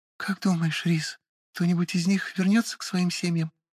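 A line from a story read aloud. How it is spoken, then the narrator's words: Quiet question. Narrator (Russian): тихо спросила Лиидна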